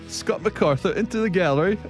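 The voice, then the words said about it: Bad English accent, Nick Faldo-style. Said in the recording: “What are you, Nick Faldo? Whoa, that was the worst English accent I've ever heard.”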